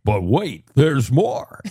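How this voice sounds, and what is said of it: Announcer-style radio voice. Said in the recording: “Let me do my radio voice.”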